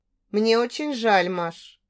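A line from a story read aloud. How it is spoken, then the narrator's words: Very calm. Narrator (Russian): проговорил очень спокойно наконец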